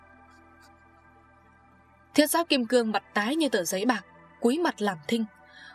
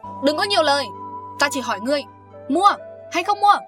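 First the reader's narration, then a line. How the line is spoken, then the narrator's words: Woman's loud shout. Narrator (Vietnamese): Mụ đàn bà chột quát lớn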